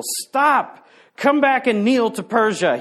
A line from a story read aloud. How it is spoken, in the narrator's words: shouted in vain